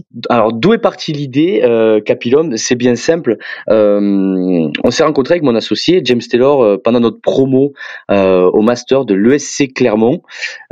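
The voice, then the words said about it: Southern French accent. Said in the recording (French): “vous entendrez sûrement mon accent que je suis plus originaire du sud de la France”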